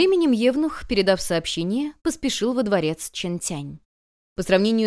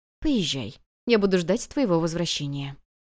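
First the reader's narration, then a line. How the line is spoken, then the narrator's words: Gentle, cheerful. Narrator (Russian): Императрица повеселела и мягко сказала ей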